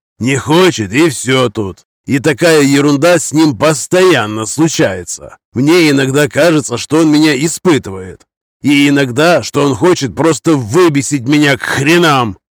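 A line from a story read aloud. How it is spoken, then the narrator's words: Shouted. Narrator (Russian): Последнюю фразу он буквально выкрикнул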